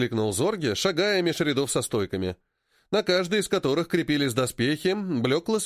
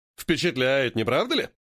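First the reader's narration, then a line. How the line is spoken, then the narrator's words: Hmphing. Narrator (Russian): хмыкнул патрон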